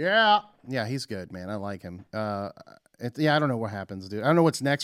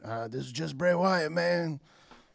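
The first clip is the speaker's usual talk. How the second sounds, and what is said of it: Bray Wyatt impression. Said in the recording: “That was a pretty good impression.”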